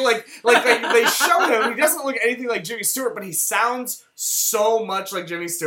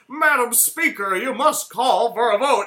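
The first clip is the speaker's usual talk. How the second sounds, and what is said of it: Jimmy Stewart impression. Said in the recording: “your Jimmy Stewart accent is really ... good. It's not that good. ... I think it's pretty good.”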